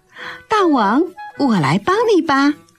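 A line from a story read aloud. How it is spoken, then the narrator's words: Smiling. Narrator (Chinese): 小狐狸笑眯眯地说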